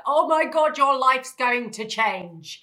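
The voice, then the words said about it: Imitates another person's voice. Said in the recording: “That's exactly how she sounds. That is a very good impression.”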